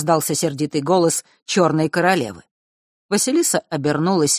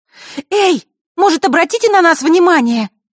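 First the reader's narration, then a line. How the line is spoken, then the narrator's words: Sudden shout. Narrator (Russian): вдруг выкрикнула Василиса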